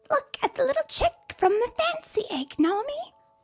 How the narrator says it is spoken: Ruth squealed

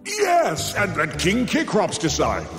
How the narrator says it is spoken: Zeus bellowed, relieved he once again could pass the buck

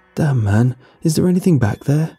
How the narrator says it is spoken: His voice was shaky, with barely concealed terror

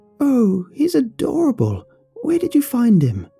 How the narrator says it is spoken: exclaimed

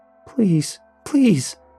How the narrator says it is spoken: he nearly screamed at me

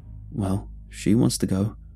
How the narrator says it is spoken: Brom nervously smiled

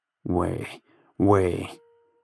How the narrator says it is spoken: Rancho wheezed

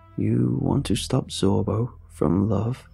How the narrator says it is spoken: His voice lowered in volume

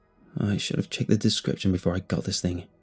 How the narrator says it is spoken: I mumbled

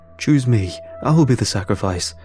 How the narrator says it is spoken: one of the acolytes called out

